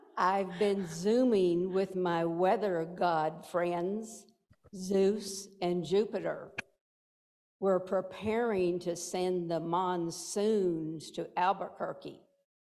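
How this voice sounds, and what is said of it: Woman's voice with Texas accent. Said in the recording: “God's a woman with a Texas accent”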